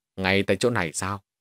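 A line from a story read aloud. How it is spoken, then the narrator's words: Smiling. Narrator (Vietnamese): Lý Giật mỉm cười rồi nói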